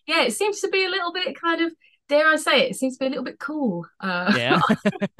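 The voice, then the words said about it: Essex English accent. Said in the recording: “I'm from Essex ... I'm familiar with the accent. It's a popular ... one”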